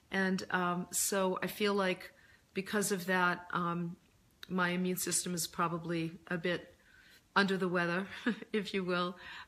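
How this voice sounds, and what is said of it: Deeper, recovering hoarse voice. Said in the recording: “I'm actually just getting my voice back from laryngitis ... I lost my voice ... I just have a deeper voice”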